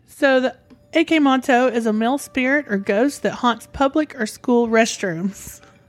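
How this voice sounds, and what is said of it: Southern American accent. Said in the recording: “my southern accent is going to show through this entire episode.”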